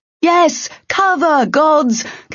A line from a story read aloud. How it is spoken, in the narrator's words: Kale shouted back